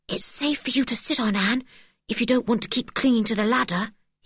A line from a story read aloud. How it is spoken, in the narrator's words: he whispered